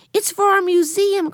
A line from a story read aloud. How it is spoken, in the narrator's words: cried Benny